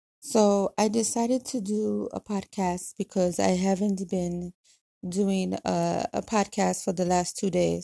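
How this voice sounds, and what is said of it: Dry, cracking, tired voice. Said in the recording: “my voice is cracking. Like my voice is cracking. It's dry. It's extremely, extremely dry. ... I am extremely tired ... drained, tired”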